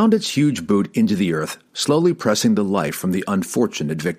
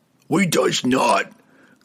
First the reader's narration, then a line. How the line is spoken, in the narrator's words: growled the giant